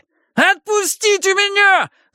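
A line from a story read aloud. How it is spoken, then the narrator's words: Shrieking. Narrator (Russian): завопил Перси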